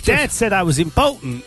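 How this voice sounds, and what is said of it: Put-on American Southern accent. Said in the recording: “I was doing a South American accent. ... it was an American Southern American accent”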